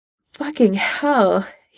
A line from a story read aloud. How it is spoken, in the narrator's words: he rasps